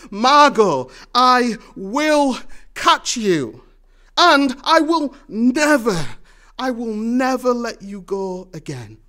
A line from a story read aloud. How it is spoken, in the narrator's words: Gru desperately holds out his hands and says to her